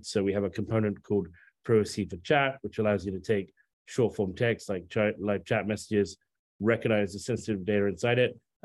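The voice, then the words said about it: Fast speech, British-American accent. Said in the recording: “I'm speaking quickly in a sort of British American accent”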